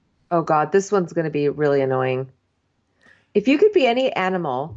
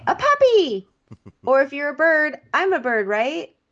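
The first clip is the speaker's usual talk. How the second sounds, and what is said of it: Ditzy Newport Beach girl voice. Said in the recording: “her accent. Okay, dumb girl accent from Newport”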